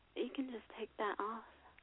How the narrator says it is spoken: whispered

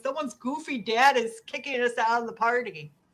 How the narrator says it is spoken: Jamie Kennedy makes his cameo by yelling

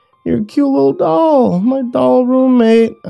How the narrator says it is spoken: I giggled at the absurdity of it all

